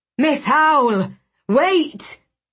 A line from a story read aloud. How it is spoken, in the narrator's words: Agrippa cried